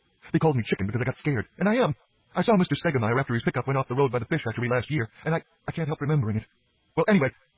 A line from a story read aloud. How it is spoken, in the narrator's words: his voice broke off when he gulped